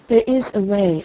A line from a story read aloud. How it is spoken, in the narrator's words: answered the tree